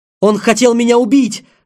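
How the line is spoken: Shouting. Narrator (Russian): закричал Кирилл

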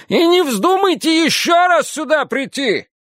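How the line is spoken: Yelling after them. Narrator (Russian): орала она им вслед

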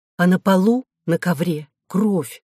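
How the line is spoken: Plain. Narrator (Russian): сказал корреспондент

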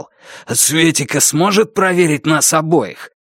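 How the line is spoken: Strained wheezing voice. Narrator (Russian): хрипя от натуги, он сказал

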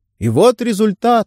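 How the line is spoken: Exclaimed. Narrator (Russian): воскликнул один из пассажиров

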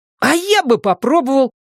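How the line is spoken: Joyful. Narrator (Russian): радостно сообщает Пат

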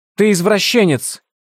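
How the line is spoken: Shouted. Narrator (Russian): выкрикнула она

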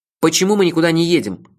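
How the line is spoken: Loud question. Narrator (Russian): громко спросил я

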